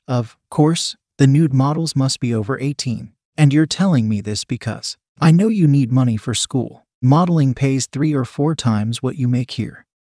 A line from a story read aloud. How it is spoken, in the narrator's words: He laughed and said